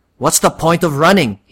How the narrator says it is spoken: snarls

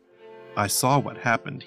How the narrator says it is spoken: he said

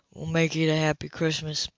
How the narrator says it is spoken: he said softly

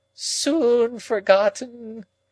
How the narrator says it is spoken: moaned Miss Havisham

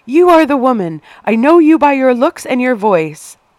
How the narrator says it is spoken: screamed

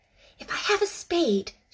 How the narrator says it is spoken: she whispered

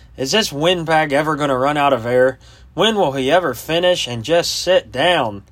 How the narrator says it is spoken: a young lieutenant grumbled

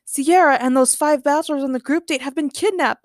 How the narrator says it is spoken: Batch yelped, crying

